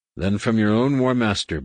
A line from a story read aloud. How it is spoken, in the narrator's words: Borsk said evenly